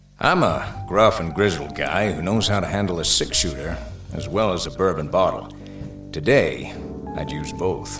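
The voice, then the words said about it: Manly narrator voice. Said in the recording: “my manly narrator voice”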